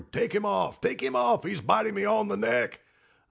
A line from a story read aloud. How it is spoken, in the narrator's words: hollering